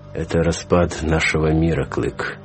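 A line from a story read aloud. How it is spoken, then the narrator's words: Unexpectedly sad. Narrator (Russian): неожиданно грустно ответил он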